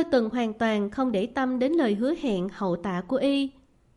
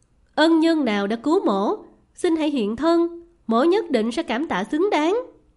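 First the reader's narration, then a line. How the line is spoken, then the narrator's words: Loud calling out. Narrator (Vietnamese): Y lớn tiếng gọi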